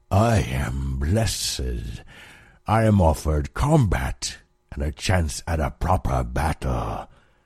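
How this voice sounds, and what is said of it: Low voice, thick unfamiliar accent. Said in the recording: “His low voice was thick with an accent that Alum did not know”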